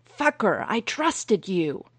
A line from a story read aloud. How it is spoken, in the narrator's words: Hawkeye yelled at Culbreth